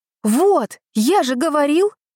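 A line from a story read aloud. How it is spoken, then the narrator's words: Exclamation. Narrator (Russian): воскликнул Саша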